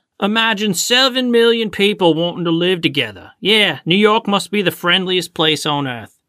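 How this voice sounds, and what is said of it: Put-on Australian-style accent. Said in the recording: “I love your accent.”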